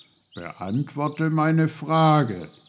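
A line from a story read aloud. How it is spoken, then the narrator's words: Stern. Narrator (German): sagte Onkel Pfefferkorn streng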